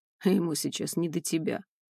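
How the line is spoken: Snort. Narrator (Russian): хмыкнул

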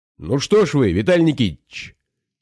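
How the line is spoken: Low rumbling voice. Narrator (Russian): сказал он низким ракочущим голосом

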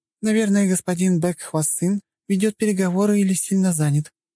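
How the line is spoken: Purring. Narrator (Russian): что-то промурлыкала миловидная кореянка

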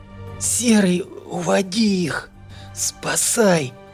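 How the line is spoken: Strained, last strength. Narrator (Russian): выдавила она с последними силами

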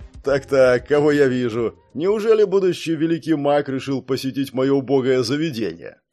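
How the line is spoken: Big man laughing. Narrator (Russian): рассмеялся здоровяк

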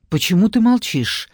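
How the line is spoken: Slightly frightened question. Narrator (Russian): немного испуганно спросил Марат

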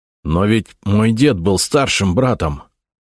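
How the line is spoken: Through clenched teeth. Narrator (Russian): сквозь зубы сказал

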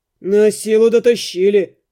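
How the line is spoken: Grumbling. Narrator (Russian): проворчал Рыжебородый

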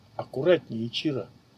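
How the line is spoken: Whisper. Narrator (Russian): прошептал Сейджа

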